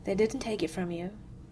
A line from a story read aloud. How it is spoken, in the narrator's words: said quietly